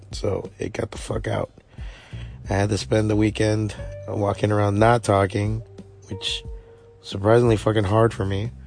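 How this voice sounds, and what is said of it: Hoarse, strained voice. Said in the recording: “my voice is a little ugh... my voice was not having any of it”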